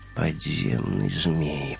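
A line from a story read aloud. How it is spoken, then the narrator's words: Mumble. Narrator (Russian): пробормотал Вим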